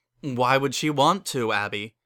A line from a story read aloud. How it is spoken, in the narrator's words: Discord chuckled